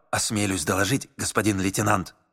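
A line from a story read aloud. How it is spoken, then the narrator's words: Secretive whisper. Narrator (Russian): таинственно зашептал унтер Паленек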